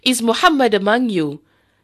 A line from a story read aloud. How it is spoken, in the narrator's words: Abu Sufyan appeared on Mount Uhud and shouted